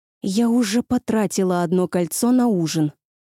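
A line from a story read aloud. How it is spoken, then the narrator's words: Through gritted teeth. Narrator (Russian): сквозь зубы процедила она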